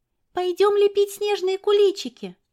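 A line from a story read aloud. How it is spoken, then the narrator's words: Cheerful. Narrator (Russian): весело сказала Лиля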